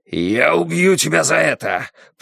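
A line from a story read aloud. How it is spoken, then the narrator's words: Growl. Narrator (Russian): прорычал он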